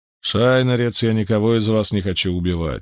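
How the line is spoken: Calm. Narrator (Russian): спокойно заявил Галлад

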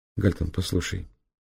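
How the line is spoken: Quiet. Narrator (Russian): тихо сказала Зоя

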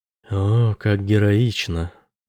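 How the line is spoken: Purring. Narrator (Russian): промурлыкала Роза

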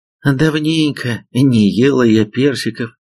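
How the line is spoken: Mother sighing. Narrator (Russian): вздохнула мама

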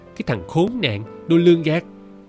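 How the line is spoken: Shrieking hiss. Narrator (Vietnamese): Tiếng dì Miên rít lên

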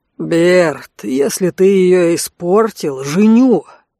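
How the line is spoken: Growling. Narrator (Russian): зарычал Алан

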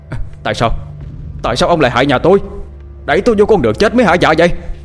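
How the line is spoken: Screaming. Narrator (Vietnamese): Kiên gào lên

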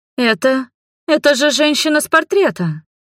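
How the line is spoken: Exclaiming. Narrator (Russian): воскликнула Маргари

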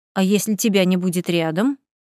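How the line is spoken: Smirking snort. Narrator (Russian): хмыкнула

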